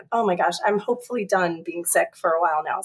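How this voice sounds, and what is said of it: Sick, affected voice. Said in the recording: “I got sick, yeah. ... Sorry about my voice”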